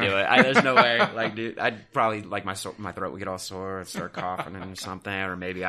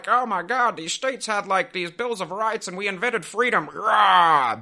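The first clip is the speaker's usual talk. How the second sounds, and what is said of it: Put-on accent. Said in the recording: “I don't know what, like, accent that was, but I feel like you should do the whole episode in that.”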